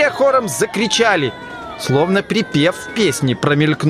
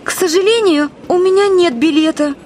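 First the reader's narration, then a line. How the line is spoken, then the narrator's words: Frightened. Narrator (Russian): испуганно сказала Алиса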